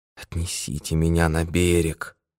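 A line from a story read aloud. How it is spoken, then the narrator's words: Barely audible, dying voice. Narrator (Russian): Умирающий произнес едва слышным голосом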